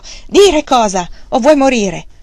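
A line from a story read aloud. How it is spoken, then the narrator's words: Furious shout. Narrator (Italian): Wang Lung, fuori di sé per questo, gridò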